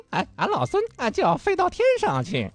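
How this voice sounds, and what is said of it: Monkey King character voice. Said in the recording (Chinese): “比如说我们演《西游记》的时候...悟空是谁配的...就是我们人为的可以去通过这个声音的这个位置啊去改变的。”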